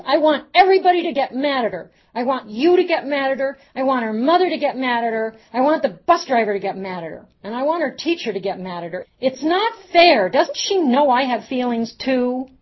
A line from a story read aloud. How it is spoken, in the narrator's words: She kept jumping, and she yelled